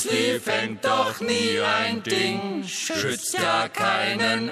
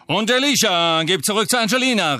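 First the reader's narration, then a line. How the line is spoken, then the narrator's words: Called out. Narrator (German): rief Lee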